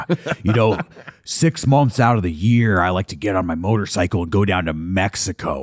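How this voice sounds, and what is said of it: Imitates another person's voice. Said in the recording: “I could do an impression of Jesse Ventura like you wouldn't believe”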